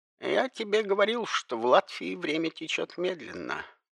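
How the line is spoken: Muttering. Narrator (Russian): пробормотал Эдгар

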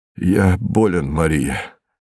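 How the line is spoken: Weak voice. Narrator (Russian): сказал он слабым голосом

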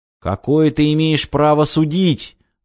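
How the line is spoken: Young man shouting. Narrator (Russian): выкрикнул юноша

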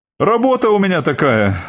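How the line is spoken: Sighed. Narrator (Russian): вздохнул Илья

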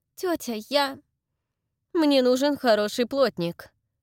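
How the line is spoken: Angry. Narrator (Russian): сердито заявила она

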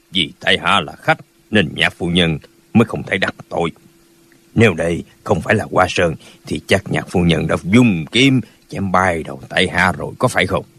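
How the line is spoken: Cold, thin smile. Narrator (Vietnamese): Lão họ Lỗ cười nhạt nói

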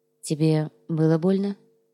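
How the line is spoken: Quiet question. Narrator (Russian): Тихо спросила Яна

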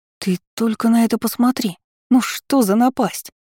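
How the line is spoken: Exclaiming. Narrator (Russian): воскликнула Анариэль

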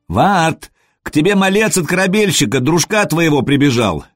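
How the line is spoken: Shout from outside. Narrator (Russian): крикнули снаружи

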